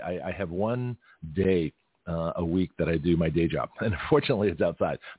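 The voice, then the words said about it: Scratchy, slightly hoarse voice. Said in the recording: “my voice sounds a little scratchy ... I don't care how scratchy my voice gets”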